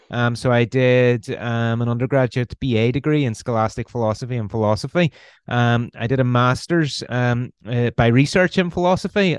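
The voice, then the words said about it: Northern Irish accent. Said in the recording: “You can probably tell by the accent, I'm Irish. I'm from Northern Ireland, originally from Belfast.”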